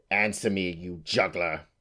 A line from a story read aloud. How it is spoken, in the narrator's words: she snarled